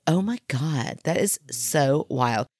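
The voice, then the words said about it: Valley girl voice impression. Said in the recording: “a valley girl”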